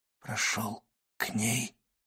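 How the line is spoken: Whispered. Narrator (Russian): прошептал он

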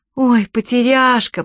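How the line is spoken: Moaning. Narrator (Russian): простонала Чермейн

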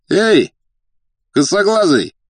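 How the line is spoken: Shouting. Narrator (Russian): крикнул один из деловых

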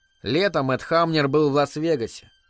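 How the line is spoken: Calm. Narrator (Russian): спокойно продолжала Элис

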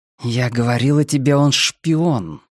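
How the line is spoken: Words hissed through teeth. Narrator (Russian): процедила она по-русски

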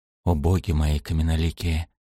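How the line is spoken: Whispered. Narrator (Russian): прошептал Шем

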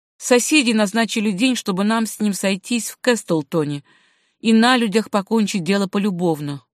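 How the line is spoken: Dejected reply. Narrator (Russian): уныло отвечал Габи

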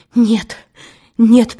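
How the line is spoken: Breathless babbling. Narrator (Russian): пролепетала Пелагея, ловя губами воздух

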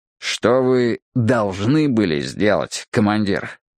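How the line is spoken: Through clenched teeth. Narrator (Russian): процедил он сквозь плотно стиснутые зубы

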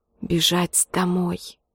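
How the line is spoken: Whispered. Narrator (Russian): шептал он

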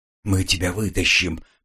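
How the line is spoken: Whispered. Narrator (Russian): прошептал Илан

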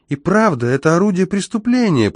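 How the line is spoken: Squeaky voice. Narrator (Russian): пропищал

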